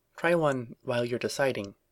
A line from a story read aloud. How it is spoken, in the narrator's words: she said quietly